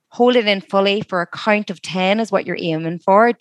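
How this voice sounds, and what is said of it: Beautiful-sounding accent. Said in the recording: “Everything also sounds better and more beautiful with your accent”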